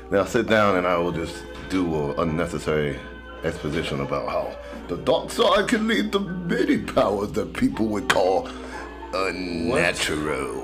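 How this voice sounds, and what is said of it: Poor Emperor Palpatine character voice. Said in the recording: “You know how to do a voice. ... it wasn't a good voice. ... talking about the Emperor ... Or Palpatine”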